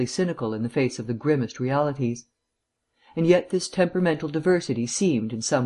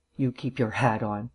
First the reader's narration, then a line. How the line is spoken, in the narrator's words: growled Markham